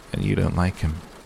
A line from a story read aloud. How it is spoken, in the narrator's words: Edward surmised his tone was still kind